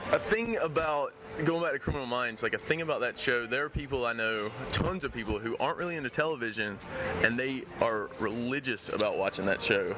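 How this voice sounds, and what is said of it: South Carolina accent. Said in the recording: “where's your accent from, by the way? Where are you from? ... South Carolina. ... It's a great accent, brother.”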